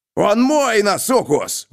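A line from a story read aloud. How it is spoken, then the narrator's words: Howling. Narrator (Russian): взвыл Груди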